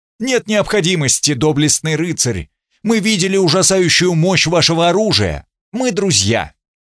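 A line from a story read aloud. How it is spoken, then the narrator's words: Shouted from afar. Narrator (Russian): Он прокричал издали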